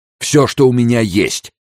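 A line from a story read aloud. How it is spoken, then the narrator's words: Shouting. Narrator (Russian): крикнул Энрико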